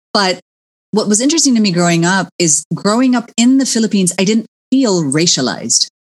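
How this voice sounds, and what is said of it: Partly American accent. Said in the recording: “you can hear from my accent, clearly I'm half American ... my accent comes and goes”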